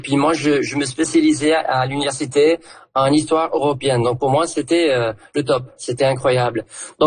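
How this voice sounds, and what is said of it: Southern French accent. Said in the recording (French): “en prenant l'accent du coin ... je me disais bien que j'entendrais un accent du sud”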